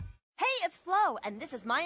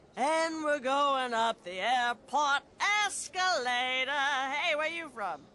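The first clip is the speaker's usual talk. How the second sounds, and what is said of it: Traveling lounge singer character voice. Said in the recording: “my impression of a traveling lounge singer”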